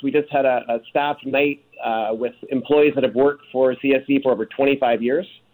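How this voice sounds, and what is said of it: Rough, hoarse voice. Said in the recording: “My voice is a bit rough this morning. ... I was at the Killers concert last night.”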